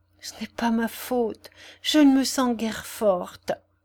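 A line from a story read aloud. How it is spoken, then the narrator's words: Relieved murmur. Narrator (French): murmura-t-elle comme soulagée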